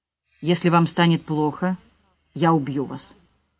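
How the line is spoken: Calm, armed man. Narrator (Russian): спокойно сказал мужчина с пистолетом

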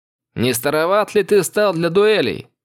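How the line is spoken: Mocking shout. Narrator (Russian): Насмешливо крикнул я

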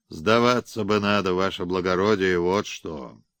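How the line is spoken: Sighing. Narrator (Russian): вздохнул

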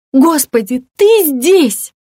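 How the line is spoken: Shriek. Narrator (Russian): взвизгнула она

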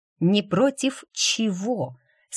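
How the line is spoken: Through gritted teeth. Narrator (Russian): сквозь зубы проговорила Джейд

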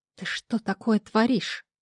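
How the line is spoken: Hissing. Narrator (Russian): зашипела на фамильяра

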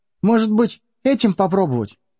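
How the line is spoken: Timid, exhausted question. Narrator (Russian): робко спросил Бильбо, когда все окончательно выбились из сил

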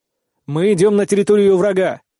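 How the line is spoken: Loud declaration. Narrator (Russian): громко заявляю

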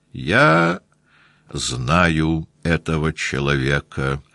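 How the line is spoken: Measured, cold, intimidating. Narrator (Russian): мерным холодным голосом, очевидно рассчитанным на то, чтобы испугать Пьера

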